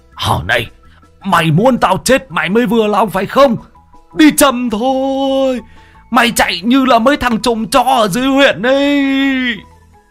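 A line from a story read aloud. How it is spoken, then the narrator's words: Old man shrieking. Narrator (Vietnamese): Ông rú lên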